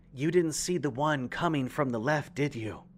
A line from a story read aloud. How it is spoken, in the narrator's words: answered, once more in the same cool tone